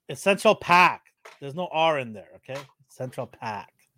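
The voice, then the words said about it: Put-on Boston accent, dropped R's. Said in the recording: “that sounds more Jersey than NY ... That's York Bostonian accent? Bostonian.”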